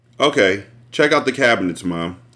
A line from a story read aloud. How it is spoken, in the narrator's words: he replied dryly